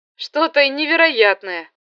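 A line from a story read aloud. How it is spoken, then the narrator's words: Loud. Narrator (Russian): сказал Второв, и эти громко произнесенные слова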